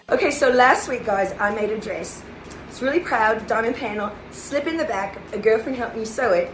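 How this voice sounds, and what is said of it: Perfect put-on Australian accent. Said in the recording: “she's talking in what I think is a perfect Australian accent, and we don't know why”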